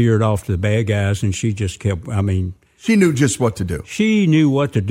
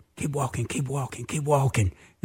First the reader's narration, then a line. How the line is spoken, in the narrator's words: I whispered